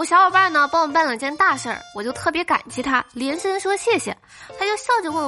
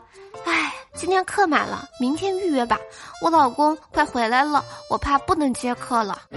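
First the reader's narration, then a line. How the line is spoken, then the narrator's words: Sighing. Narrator (Chinese): 他媳妇儿呢叹了口气说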